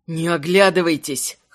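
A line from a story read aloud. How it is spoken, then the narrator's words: Hoarse wheezing. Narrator (Russian): хрипел Заренец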